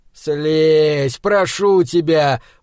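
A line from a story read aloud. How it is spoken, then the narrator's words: Straining groan. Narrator (Russian): простонал я, пытаясь спихнуть себя эту совсем нелегонькую кобылку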